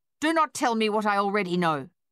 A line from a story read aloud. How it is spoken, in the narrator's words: she snapped